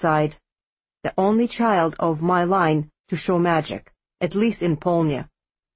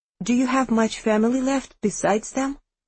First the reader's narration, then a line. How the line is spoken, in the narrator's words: I asked timidly